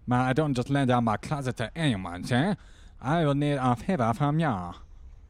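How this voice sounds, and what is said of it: Hard-to-understand put-on accent. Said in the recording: “I can't understand your accent, man.”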